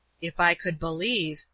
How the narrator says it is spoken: he said in a low voice

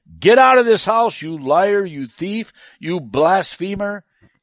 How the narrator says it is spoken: shouted

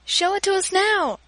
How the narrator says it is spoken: I shouted

